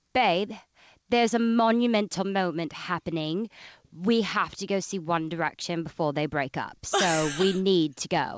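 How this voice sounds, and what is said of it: Mediocre put-on British accent. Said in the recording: “Can you do a British accent ... kind of decent. I'm not really good at it”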